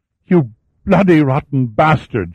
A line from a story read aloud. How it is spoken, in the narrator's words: she screamed